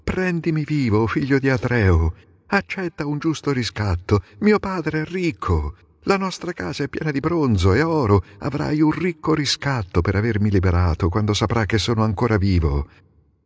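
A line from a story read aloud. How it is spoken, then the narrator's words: Pleading. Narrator (Italian): supplicandolo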